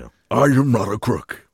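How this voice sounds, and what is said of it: Richard Nixon impression. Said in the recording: “impersonations. You have to do the physicality. You can't go, I am not a crook. It doesn't sound like Nixon. You have to go”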